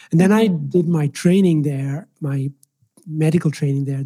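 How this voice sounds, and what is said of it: Irish accent. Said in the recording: “I was raised in the Republic of Ireland, which is why I have this interesting accent”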